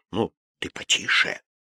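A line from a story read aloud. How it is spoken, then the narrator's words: Muttered. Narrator (Russian): кто-нибудь бормотал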